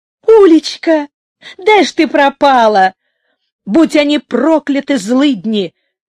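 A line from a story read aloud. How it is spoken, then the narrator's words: Joyful, tearful woman. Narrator (Russian): радостно говорила она с выступившими на глазах слезами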